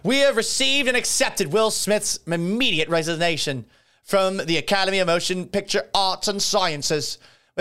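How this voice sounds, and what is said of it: Put-on British accent. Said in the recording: “I don't know why I gave him a British accent.”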